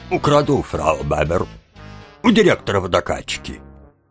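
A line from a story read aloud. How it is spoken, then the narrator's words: Deep bass voice. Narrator (Russian): Тим ... ответил басом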